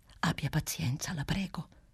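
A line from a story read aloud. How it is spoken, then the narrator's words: Whispering. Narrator (Italian): bisbigliava Clelia Trotti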